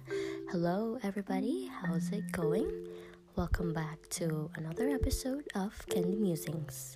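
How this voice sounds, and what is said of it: Soft, slightly off, sickly voice. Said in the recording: “My voice is kind of weird right now because I am about to get sick ... I'm just talking a bit softer because I am recording this at 11 at night”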